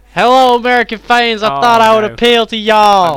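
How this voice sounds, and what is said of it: Put-on American accent. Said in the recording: “talking in a localized American accent”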